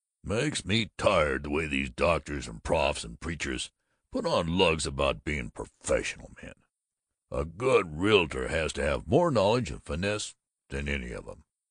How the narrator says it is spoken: Babbitt had growled

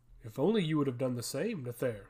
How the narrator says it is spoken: quipped Adject harshly

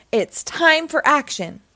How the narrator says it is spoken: exclaimed Team Umizoomi

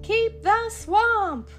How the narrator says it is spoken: the crowd began to shout

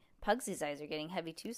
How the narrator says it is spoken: said Judy

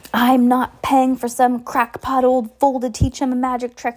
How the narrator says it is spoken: yelled Uncle Vernon

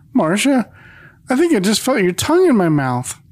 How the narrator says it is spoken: Charlie, with a squeaky voice, says

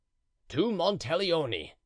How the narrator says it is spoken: he cried

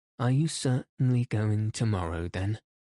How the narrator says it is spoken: asked Vronsky

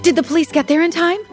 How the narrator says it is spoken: Jill said anxiously

